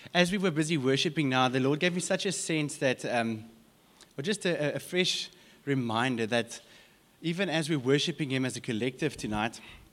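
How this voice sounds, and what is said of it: Hoarse, strained voice. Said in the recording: “Maybe worship was a bit too good. I'm losing my voice.”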